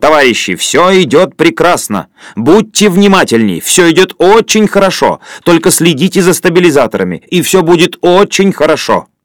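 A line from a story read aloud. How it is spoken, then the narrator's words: Sudden shout. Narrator (Russian): Каспаров вдруг крикнул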